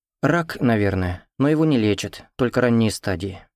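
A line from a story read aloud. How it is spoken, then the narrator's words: Sad girl speaking. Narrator (Russian): грустно сказала девочка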